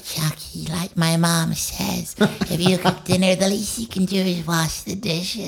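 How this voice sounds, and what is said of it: Imitates another person's voice. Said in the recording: “my Jinx impression is also my Jennifer Tilly impression... Oh, really good.”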